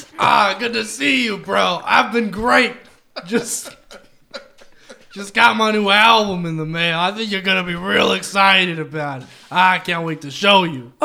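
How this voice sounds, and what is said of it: Imitates another person's voice. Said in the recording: “your best Aaron Carter impression”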